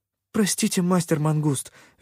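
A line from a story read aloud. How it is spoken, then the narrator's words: Guilty babbling. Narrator (Russian): виновато залепетала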